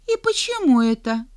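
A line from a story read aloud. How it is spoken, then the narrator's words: Offended question. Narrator (Russian): обиженно спросила принцесса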